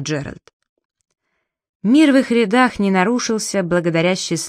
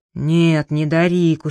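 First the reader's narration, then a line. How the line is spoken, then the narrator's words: Tired reply. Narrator (Russian): устало отозвался Джеральд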